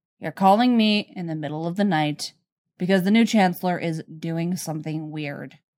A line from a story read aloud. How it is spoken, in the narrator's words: Flatly, says